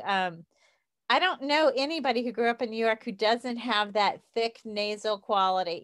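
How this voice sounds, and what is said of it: Southern American accent. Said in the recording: “i still have my southern accent even though i've tried for years to shake it”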